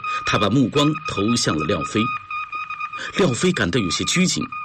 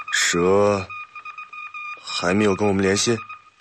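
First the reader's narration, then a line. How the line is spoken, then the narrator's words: Sighing. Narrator (Chinese): 板垣叹了口气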